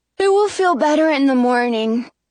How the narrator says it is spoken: Jonah says with a yawn

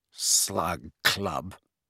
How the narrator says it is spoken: repeated Ron with a sneer worthy of Malfoy

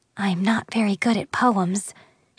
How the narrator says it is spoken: she whispered to the prince

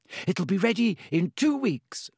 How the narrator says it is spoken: said happily

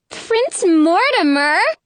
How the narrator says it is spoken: the third girl cries out

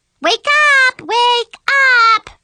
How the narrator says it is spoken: Brianna screamed

